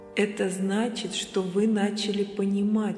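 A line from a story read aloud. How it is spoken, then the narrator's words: Plain. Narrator (Russian): сказал Гурджиев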